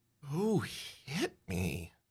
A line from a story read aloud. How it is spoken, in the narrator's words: You mumble